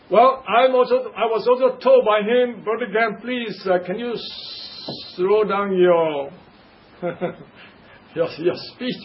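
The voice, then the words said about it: Asian-accented English. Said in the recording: “different accents are kind of difficult for many people to understand ... my accent ... Africa is very much close to Asia than America, so our accent should be more or less not much of a difference”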